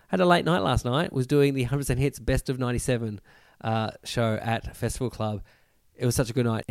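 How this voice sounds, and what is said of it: Croaky, hoarse voice. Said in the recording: “my voice sounds a little bit croaky, doesn't it?”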